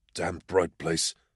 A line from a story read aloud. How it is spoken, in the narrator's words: he muttered